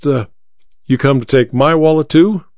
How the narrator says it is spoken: He laughed

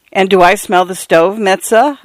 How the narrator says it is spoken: laughing

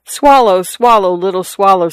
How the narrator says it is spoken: said the prince

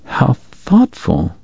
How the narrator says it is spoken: he said quietly

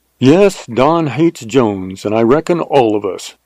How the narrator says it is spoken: said Emmett

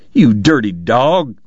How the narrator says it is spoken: James cried

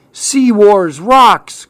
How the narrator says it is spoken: cried Clark

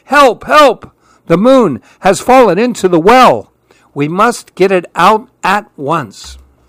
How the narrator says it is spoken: The oldest monkey was terrified too and shouted

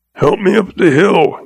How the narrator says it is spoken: he choked

